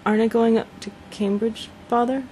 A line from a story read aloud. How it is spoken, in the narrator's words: stammered Mike